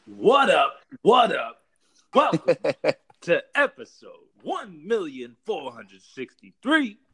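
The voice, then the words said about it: Impression of Combo's podcast intro. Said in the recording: “Combo intro impersonation”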